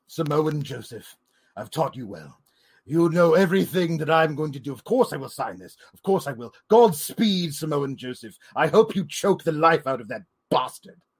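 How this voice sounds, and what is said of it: Impression of William Regal. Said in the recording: “That's what William Regal said to Samoa Joe. ... the fans demand that I do an impression of William Regal every week”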